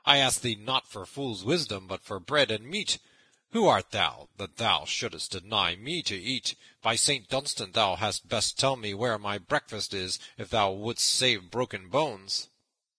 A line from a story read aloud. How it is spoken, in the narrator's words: cried Little John